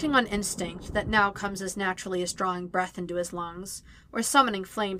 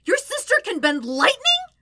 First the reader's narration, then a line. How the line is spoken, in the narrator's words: Sokka shouts, his tone bordering on hyperventilation